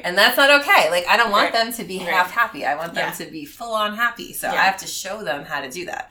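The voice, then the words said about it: Northeastern US, New York accent. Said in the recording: “You can probably tell that ... from the Northeast ... With her accent ... we're both from New York, from the Bronx”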